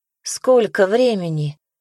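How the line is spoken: Sleepy question. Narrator (Russian): сонно спросила она

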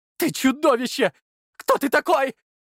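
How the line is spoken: Shouting. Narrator (Russian): кричал Влад

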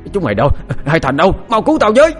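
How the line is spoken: Loud panicked cry for help. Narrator (Vietnamese): vừa chạy vừa hét lớn kêu cứu

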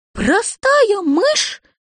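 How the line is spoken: Indignant squeak. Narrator (Russian): в негодовании пискнула мышка

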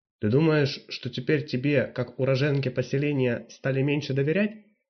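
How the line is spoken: Plain. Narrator (Russian): спросил Крайл

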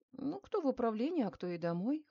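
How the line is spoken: Smirking snort. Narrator (Russian): хмыкнул Мельников

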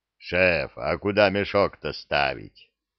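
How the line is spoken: Low booming drone. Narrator (Russian): прогудел зырк

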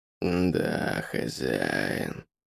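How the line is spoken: Werewolf growl. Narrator (Russian): прорычал оборотень

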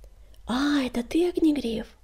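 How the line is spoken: Whisper. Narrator (Russian): прошептала Чернобурка

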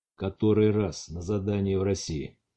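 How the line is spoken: Hesitant, uncertain reply. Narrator (Russian): Лазучица ответила не сразу и неуверенно

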